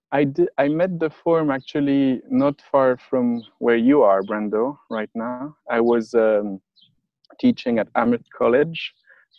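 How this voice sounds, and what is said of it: French accent. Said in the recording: “teaching French, as my accent is indicating”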